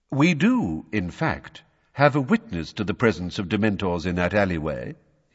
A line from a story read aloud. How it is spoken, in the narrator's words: he said